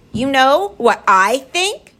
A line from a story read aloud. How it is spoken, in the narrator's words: she shouted